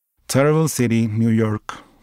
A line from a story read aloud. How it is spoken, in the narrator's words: the assistant said